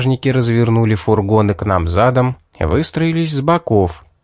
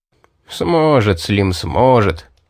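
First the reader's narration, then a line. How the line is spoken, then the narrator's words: Laughing. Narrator (Russian): засмеялся маг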